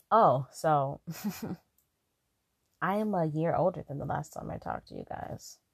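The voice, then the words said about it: Raspy voice. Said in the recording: “you could probably hear it in my voice. I've matured. I'm also laying down. so, so if I sound raspy, it's because I'm not in the optimal talking position”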